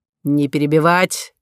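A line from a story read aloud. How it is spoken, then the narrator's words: Sharp shout. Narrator (Russian): прикрикнул на нее полковник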